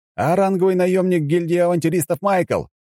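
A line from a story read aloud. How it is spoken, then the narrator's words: Shouted reply. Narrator (Russian): прокричал я в ответ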